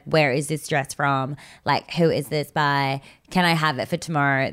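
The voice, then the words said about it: Bad put-on American accent. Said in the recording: “This is a really bad American accent, guys.”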